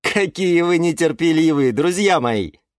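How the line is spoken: Laughing. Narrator (Russian): Засмеялся Юра

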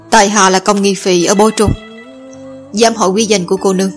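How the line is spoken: Soft. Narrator (Vietnamese): chàng khẽ nói

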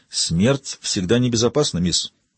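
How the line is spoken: Plain. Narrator (Russian): сказал Яго

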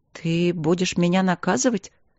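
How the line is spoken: Timid wife's question. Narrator (Russian): робко спросила жена

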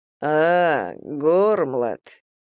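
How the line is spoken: Low purring voice. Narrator (Russian): промурлыкал знакомый низкий голос

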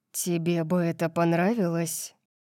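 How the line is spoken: Dangerous-toned question. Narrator (Russian): спросил он опасным голосом

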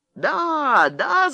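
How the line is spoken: Men shouting. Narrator (Russian): закричали жандармы

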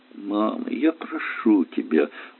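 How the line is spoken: Dejected mumble. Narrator (Russian): уныло пробормотала Света

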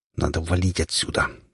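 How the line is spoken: Through gritted teeth. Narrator (Russian): Сквозь зубы говорю я

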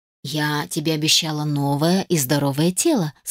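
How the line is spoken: Plain. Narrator (Russian): сказала фея

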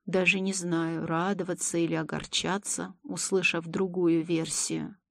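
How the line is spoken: Thoughtful mumble. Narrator (Russian): задумчиво пробормотал Елисей

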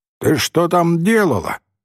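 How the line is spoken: Loud surprised question. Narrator (Russian): громко спросил он у нее, удивляясь тому, что она откуда-то сверху спускается на дорогу

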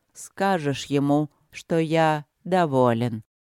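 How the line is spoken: Slow. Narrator (Russian): медленно сказал Тханорарх

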